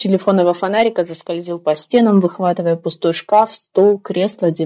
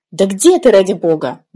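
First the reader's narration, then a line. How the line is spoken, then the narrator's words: Irritated question. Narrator (Russian): спросила она раздраженно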